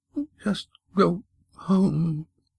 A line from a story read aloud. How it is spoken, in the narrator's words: he moaned softly